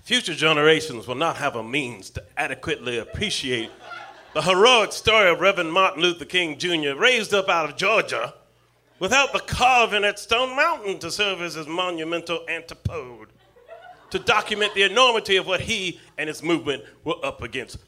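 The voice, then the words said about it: Southern gentleman accent. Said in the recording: “my Southern gentleman accent”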